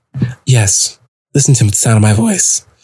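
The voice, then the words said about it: Serious, close-mic voice. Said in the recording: “serious voice ... get really close to the mic”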